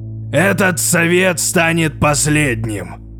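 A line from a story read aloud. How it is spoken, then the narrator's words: Menacing voice. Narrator (Russian): грозным голосом озвучил ее мысли Вотан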